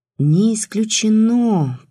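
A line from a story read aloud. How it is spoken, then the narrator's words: Drawled. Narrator (Russian): протянул Сергей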